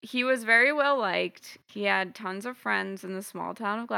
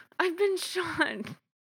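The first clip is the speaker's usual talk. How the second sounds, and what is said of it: Put-on British accent. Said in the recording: “you gave him a British accent.”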